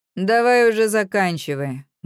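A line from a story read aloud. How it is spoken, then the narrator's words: Tired. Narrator (Russian): говорю устало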